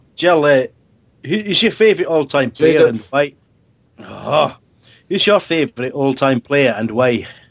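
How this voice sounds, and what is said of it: Unplanned Scottish accent. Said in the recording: “I'll ask this in the style of Dougie Freeman ... I've not even planned a Scottish accent.”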